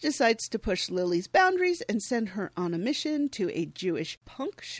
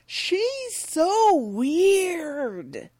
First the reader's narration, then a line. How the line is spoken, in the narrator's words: exclaiming